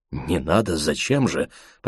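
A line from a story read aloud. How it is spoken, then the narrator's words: Mumbled. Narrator (Russian): пробормотал Кречмар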